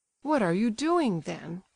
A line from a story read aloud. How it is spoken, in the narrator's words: cried Evgenie in horror